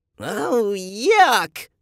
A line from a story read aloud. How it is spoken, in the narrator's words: Eva screeched